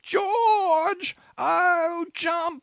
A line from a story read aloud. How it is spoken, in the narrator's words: another wild screech